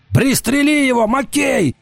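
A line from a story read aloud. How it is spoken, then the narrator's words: Shout. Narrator (Russian): закричал Уртона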